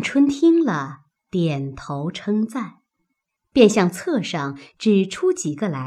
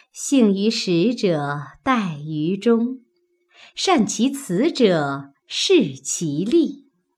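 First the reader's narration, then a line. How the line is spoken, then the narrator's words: Laughing reply. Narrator (Chinese): 宝钗笑答道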